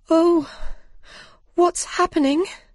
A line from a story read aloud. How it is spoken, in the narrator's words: cried Alice